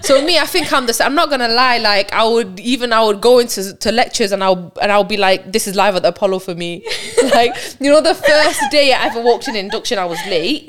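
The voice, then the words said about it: Loud, boisterous voice with distinct accent. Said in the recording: “I've got like a distinct mummy accent, and I'm loud as well... I'm loud, I'm like boisterous”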